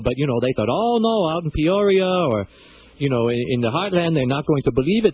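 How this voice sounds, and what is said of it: Thick Cuban accent. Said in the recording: “my accent was a little thick”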